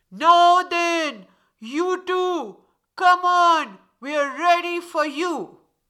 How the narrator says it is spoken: The 12 foxes standing in a flock, they yelled out

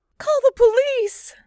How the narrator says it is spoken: she screamed

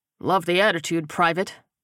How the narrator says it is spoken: Bretz replied dryly

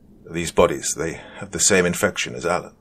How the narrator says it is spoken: Simonov panted out

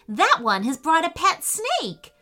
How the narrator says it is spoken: shouted Camilla

